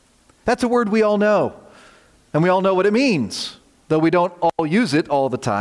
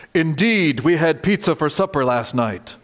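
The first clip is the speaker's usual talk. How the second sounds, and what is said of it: Put-on Shakespearean accent. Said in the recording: “You have to say it with a Shakespearean accent.”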